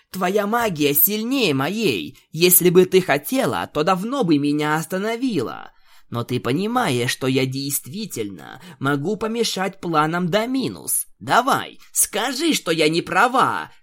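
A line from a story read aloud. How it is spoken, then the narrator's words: Shouting. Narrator (Russian): кричала единорожка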